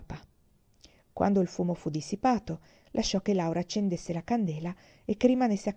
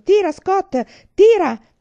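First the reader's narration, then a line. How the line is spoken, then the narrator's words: Father shouting. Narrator (Italian): gridava papà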